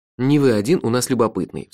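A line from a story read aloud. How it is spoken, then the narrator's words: Sigh. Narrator (Russian): вздохнул я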